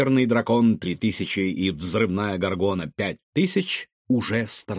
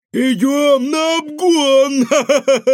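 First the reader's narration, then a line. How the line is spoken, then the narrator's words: Yelling. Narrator (Russian): вопила Светка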